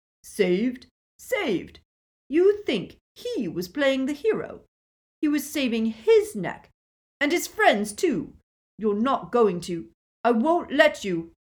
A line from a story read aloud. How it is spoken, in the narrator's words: Snape's whole face contorted, and he spluttered